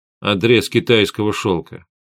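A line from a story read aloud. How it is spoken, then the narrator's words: Calm. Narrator (Russian): спокойно ответил Гессер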